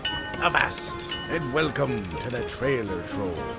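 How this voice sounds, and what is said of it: Bad pirate voice. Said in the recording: “trying to do a bad pirate voice”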